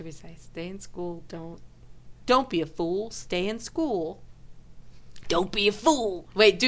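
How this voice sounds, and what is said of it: Usual voice. Nothing is said of it.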